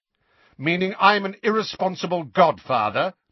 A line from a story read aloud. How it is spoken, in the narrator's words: demanded Sirius, his voice rising